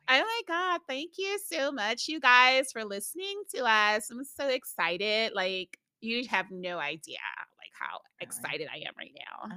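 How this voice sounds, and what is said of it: Code-switched, polished, upbeat voice. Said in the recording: “What is your code switch voice? ... It's pretty good.”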